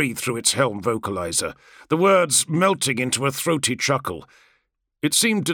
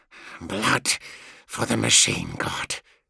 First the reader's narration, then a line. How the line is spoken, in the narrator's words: he said through clenched teeth